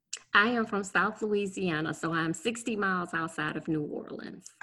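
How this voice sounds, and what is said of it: South Louisiana accent. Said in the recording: “I hear an accent.”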